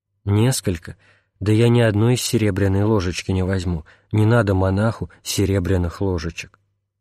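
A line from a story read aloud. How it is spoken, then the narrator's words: Old man, plain. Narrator (Russian): старец сказал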